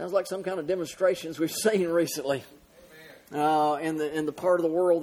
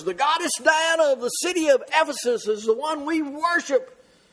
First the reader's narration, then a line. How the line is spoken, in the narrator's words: created a big uproar and a big stir, and they were shouting down and yelling and screaming, shouting for 2 hours